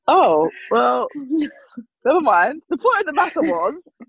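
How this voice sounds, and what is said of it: Usual voice. Nothing is said of it.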